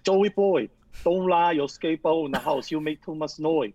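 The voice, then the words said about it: Put-on Chinese accent. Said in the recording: “sound like him ... Asian accent was Chinese ... you sound just like our landlord”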